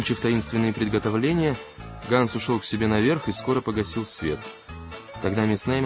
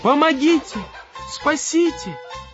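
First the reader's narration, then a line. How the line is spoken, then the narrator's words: Desperate scream. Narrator (Russian): отчаянно завопила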